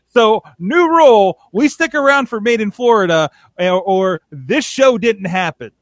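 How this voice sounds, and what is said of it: Loud, heated yelling. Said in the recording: “I'm so heated ... why I'm yelling”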